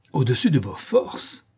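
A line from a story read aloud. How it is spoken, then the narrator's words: Exclamation. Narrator (French): s'écria la comtesse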